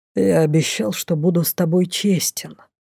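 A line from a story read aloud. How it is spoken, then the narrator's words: Mage's quiet breath. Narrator (Russian): тихо выдохнул маг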